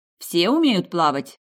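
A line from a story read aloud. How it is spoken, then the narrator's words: Stern question. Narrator (Russian): строго спросила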